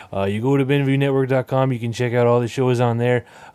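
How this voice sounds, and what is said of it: Put-on Chicago-Canadian accent. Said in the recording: “I don't know where this accent is from, but I'm going to stick with it. ... Am I from Chicago? ... Chicago. Or wherever Chicago would be if it was in Canada.”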